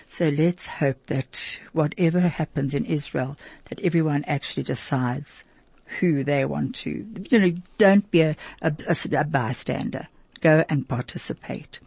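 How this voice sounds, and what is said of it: Strained, failing voice. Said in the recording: “I'm losing my voice at the moment”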